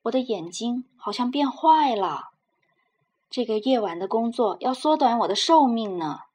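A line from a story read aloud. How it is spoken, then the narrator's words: Complaining old man. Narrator (Chinese): 老人经常在饭桌上叫苦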